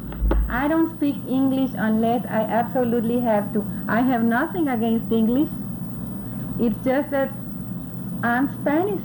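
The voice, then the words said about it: Heavy Spanish accent. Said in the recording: “That's how come my accent is so heavy.”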